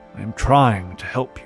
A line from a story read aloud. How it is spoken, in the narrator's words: he muttered